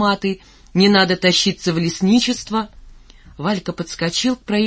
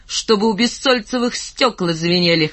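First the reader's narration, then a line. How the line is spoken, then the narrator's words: Laughing. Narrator (Russian): хохотнул он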